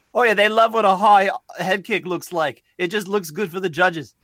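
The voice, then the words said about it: Poor put-on British accent. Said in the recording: “That's a terrible accent. ... I'm sorry to all of the British listeners that we have. ... That is horrible.”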